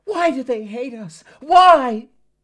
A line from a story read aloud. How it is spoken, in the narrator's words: A woman staggered, screaming as she wept